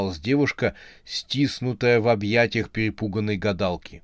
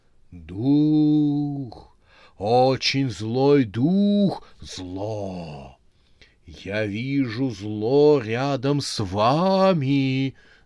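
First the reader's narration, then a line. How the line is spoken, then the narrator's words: Terrifying hiss. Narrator (Russian): Зашипела она так страшно, что Юля побелела от ужаса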